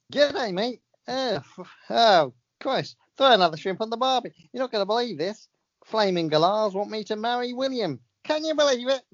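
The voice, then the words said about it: Imperfect impression with Australian accent. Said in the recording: “Kylie Minogue, she's got a few words ... This isn't an Australian accent ... says Kylie Minogue's voice. I haven't quite perfected”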